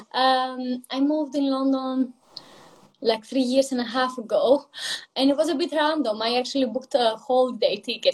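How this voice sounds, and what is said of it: Greek accent. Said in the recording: “where is the accent from. So I am originally from Greece, hence the accent.”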